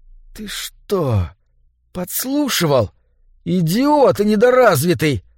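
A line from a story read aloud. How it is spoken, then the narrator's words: Hissed. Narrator (Russian): прошипел Эдди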